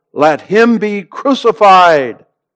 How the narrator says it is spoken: the whole world cried out

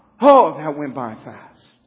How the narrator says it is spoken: we sigh

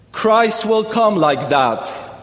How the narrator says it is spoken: he said in a loud, gay voice

